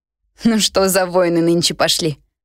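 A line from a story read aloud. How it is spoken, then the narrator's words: Laughing while chewing. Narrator (Russian): рассмеялась я, откусывая от сердца очередной кусок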